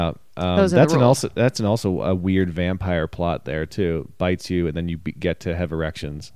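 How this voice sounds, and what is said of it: Usual voice. Nothing is said of it.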